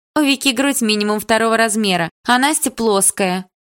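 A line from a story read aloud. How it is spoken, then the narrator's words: Laughing remark. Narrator (Russian): хохотнула ее близняшка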